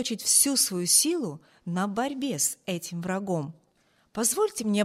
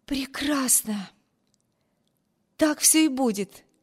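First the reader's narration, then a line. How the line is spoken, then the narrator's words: Joyful exclamation. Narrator (Russian): воскликнула девушка, сияющим лицом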